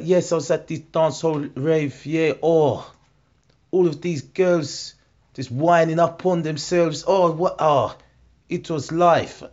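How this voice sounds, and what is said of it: South African accent mixed with patois. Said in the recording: “he's South African. I've never heard a South African speak with patois. And he kept on dropping in and out of both ... that combination of accents ... a mix of two accents”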